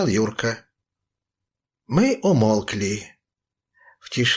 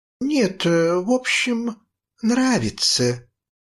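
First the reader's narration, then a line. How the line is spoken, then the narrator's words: Drawling. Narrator (Russian): протянула Мила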